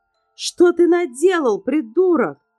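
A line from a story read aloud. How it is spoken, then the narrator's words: Criminal yelling. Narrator (Russian): завопил второй преступник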